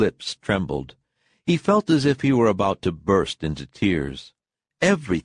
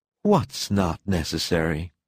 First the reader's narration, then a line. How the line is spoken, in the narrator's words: she asked tenderly, and expressed the question mark with a little